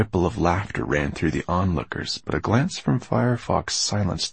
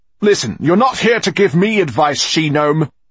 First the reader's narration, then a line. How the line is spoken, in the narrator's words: he snapped at the moss woman